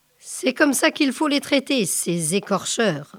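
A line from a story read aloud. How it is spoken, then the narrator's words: Grumbled. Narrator (French): grogna-t-il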